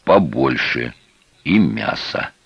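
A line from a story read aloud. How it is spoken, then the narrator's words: Hoarse exhale. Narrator (Russian): свисток хрипло выдохнул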